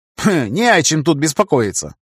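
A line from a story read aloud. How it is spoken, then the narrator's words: Snort. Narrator (Russian): фыркнул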